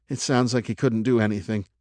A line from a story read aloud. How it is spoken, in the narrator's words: mumbled Doug